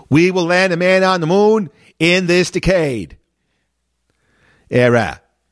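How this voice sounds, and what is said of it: John Kennedy impression, Boston accent. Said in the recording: “That's how he said decade with his Boston accent.”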